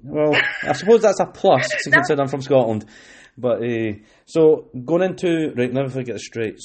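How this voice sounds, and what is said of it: Scottish accent. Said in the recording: “sound Scottish? ... yeah, you do.”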